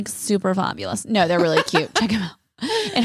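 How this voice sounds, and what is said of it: Usual voice. Nothing is said of it.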